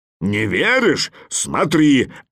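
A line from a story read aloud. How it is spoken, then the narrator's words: Bear's bark. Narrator (Russian): рявкнул медведь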